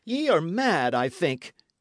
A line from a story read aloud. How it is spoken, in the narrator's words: he cried